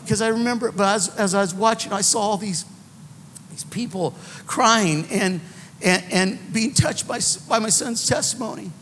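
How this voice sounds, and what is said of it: Emotional voice. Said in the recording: “I don't know why I'm getting emotional about it”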